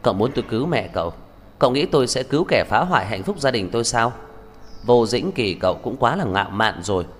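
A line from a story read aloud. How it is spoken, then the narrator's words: Cold, after a pause. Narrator (Vietnamese): Lập tức lạnh lùng mở miệng, dừng một chút, bà nói tiếp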